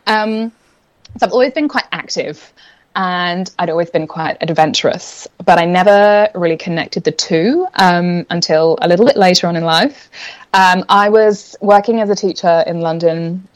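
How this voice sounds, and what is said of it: English accent with some Australian. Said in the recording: “I'm originally from England, which I'm sure is semi-evident in the accent, but I picked up a few Australian, like, water and whatevers”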